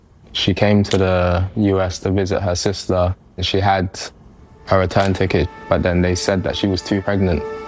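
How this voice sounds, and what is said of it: London accent, not American. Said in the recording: “Grew up in London. You hear that accent? That's not a Brooklyn accent.”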